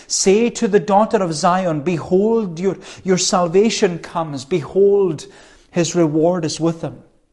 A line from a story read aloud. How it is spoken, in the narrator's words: They were shouting